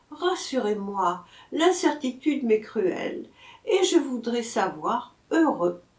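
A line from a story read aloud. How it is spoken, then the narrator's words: Sighing. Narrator (French): soupirait-elle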